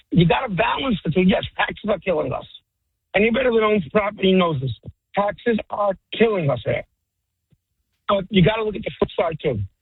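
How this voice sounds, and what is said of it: Brooklyn accent. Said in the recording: “I was born and raised in Brooklyn. ... Listen to my accent.”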